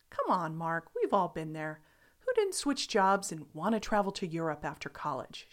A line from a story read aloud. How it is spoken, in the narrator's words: laughed